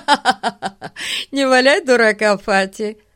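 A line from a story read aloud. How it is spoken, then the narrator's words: Laughing. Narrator (Russian): смеясь, сказал Ларри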